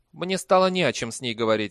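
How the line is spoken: Snapped. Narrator (Russian): огрызнулся Либич

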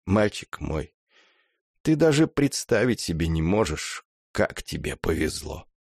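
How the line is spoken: Barely audible. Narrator (Russian): Закончил, еле слышно

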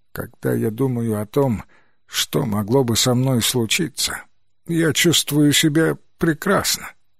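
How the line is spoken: Weak voice. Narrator (Russian): слабым голосом ответил пациент

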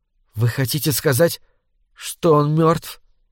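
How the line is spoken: Barely audible. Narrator (Russian): еле слышно проговорила Лори

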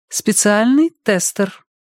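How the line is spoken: Overly theatrical society tone. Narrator (Russian): объявила она излишне театральным светским тоном

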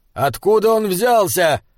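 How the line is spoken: Shouted through pouring rain. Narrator (Russian): крикнул Айнскалдер, невидимый из-за стены ливня

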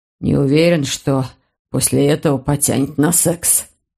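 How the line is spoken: Muttered. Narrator (Russian): пробормотал он

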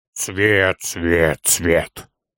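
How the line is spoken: Muttering. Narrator (Russian): пробормотал Торин

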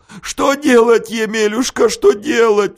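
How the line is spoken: Sobbing wanderer. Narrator (Russian): всхлипывал странник

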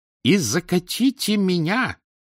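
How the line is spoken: Straining robot shout. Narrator (Russian): закричала Синтия, чудесный марсоход, который никак не мог перевалить через брусок с оселком

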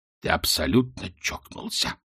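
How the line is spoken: Hoarse, straining. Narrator (Russian): прохрипел Ринсвинд, пытаясь удержать равновесие

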